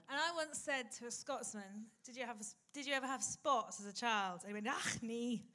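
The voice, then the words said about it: Put-on Scottish accent. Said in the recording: “In an accent, in an accent. ... We did get the accent.”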